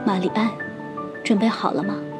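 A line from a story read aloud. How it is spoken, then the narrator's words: Soft question. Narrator (Chinese): 卢小姐轻声问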